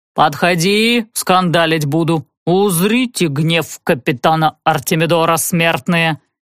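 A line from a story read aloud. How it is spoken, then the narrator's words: Heavy accent, drawling vowels. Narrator (Russian): По-берендийски говорил он с чудовищным акцентом, растягивая гласные, спотыкаясь на шипящих и ставя ударение в самых нелепых местах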